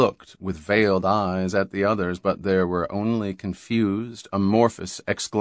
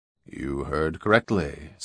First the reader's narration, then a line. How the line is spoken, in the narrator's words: said Durrell quietly